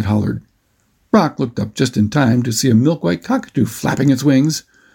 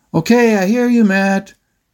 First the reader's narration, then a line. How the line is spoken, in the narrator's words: Brock yelled out over the motor's loud whine